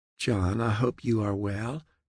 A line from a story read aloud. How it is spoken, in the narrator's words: the woman said in a soothing voice